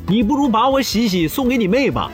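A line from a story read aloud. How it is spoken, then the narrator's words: Exasperated, loud. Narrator (Chinese): 老王忍无可忍，大声说道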